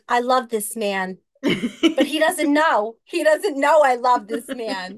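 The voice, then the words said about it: Exaggerated New York accent. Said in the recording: “That's even more of a New York accent than mine.”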